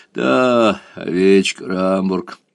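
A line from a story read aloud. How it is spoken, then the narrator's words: Angry laugh. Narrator (Russian): сердито рассмеялся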